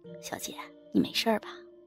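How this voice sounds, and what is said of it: Speaking quietly, softly asking. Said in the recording (Chinese): “小声的问我”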